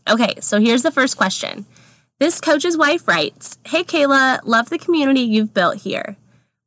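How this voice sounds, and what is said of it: Congested voice from a cold. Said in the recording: “I have a cold. I'm going to sound a little different this time”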